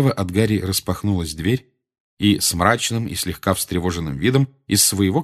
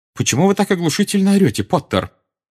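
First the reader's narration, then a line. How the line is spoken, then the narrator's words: Sharp question. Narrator (Russian): резко спросила она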